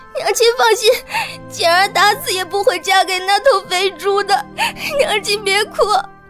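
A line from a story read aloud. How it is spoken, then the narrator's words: Urgent, anxious. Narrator (Chinese): 简儿急声道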